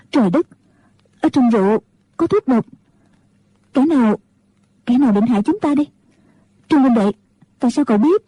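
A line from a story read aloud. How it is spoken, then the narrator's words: Frightened trembling voice. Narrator (Vietnamese): Ngũ cô sợ hãi, run cả người, nói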